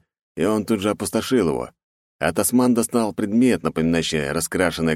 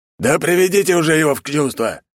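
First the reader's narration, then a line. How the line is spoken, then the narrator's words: Exasperated roar. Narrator (Russian): Не выдержав, взревел жертв-трест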